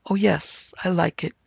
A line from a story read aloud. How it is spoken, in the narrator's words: she said in a soft, timid voice